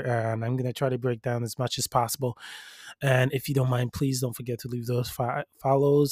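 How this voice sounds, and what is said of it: Slightly sore, strained throat. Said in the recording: “I have a little bit of a sore throat”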